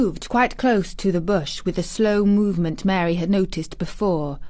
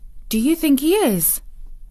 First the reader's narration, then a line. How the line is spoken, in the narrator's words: cried Mary eagerly